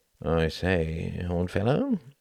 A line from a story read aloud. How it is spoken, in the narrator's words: murmured Runciman, not opening his eyes